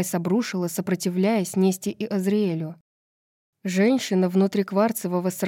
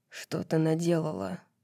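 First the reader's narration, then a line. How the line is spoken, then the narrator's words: Hoarse question. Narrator (Russian): хрипло спросила Азриэль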